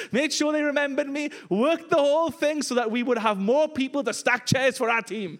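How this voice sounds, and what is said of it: Welsh accent. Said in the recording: “the only Welsh guy here with this accent?”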